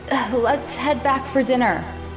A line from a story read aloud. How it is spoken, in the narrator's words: I shouted back